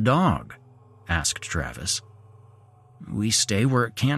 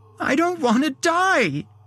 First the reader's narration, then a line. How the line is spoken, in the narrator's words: she cried